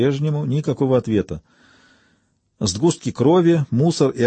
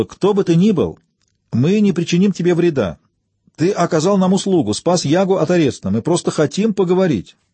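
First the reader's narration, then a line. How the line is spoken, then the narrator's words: Shout. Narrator (Russian): Диана крикнула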